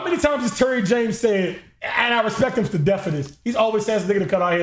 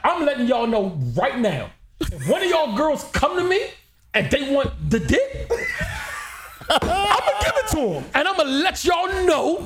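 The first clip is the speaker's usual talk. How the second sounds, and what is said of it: Imitates another person's stuttering voice. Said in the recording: “he got stuttering problems ... Don't do the impersonation.”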